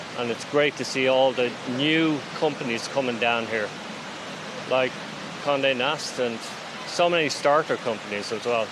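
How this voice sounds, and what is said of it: Slight Irish accent. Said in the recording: “your slight accent, you're not a native New Yorker... You're from Dublin.”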